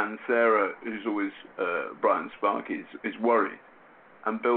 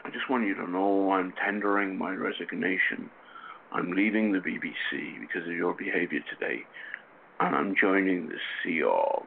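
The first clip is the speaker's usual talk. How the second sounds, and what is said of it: Grim Northern Irish accent. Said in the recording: “in his kind of slightly grim uh, Northern Irish accent uh, that he affects”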